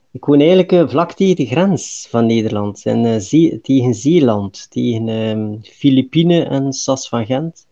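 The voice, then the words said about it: Belgian Flemish accent. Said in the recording (Dutch): “ik ben ... uit België. Dus dat kan ik niet wegsteken, denk ik, aan mijn accent ... Nee, dat hoor ik.”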